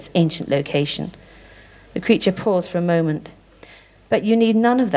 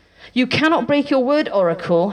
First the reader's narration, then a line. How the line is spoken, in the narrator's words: he cried, in defiance